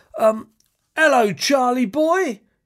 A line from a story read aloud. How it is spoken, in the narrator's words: shouted his father